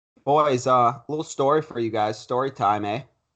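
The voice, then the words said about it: Put-on Canadian accent. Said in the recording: “that was like a Canadian accent.”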